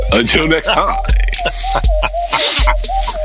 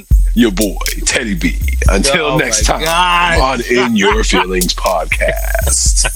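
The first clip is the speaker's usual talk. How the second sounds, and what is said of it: Radio announcer voice. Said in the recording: “That's my radio voice.”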